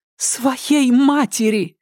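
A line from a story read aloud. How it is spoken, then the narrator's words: Anguished exclamation. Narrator (Russian): воскликнула Ирен Адлер так, будто ее терзала нестерпимая боль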